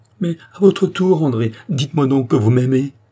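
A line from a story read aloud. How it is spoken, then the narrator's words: Exclaimed. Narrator (French): s'écria Charny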